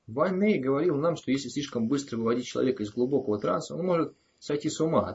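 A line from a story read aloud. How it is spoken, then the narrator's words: Plain reply. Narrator (Russian): ответил Кадберт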